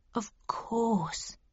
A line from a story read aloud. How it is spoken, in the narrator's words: he replied quietly and with great emotion